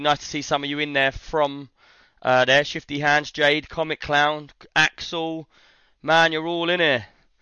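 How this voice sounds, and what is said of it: Hoarse, worn-out voice. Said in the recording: “sorry about my voice right now ... my voice is gone”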